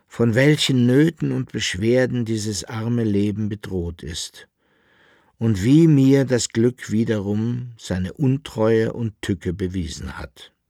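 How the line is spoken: Weary lament. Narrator (German): klagte mit matter Stimme der Alchemist

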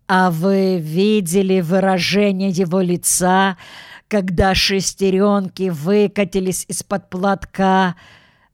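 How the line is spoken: Strained through tearful laughter. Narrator (Russian): Выдавил мистер Крубер, у которого от смеха текли слезы

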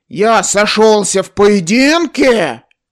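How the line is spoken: Roared. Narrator (Russian): взревел Индрик

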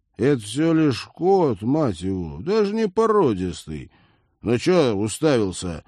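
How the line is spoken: Rough. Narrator (Russian): грубо обратился он к киборгу

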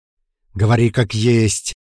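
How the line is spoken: Near growl. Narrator (Russian): Я почти рычал

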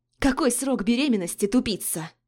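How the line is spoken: Angry spat words. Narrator (Russian): Зло выплюнули бледные губы

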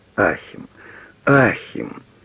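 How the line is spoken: Sigh. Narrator (Russian): вздохнула фрау фон Праквиц

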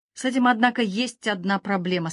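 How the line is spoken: Plain. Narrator (Russian): сказал Уэйд

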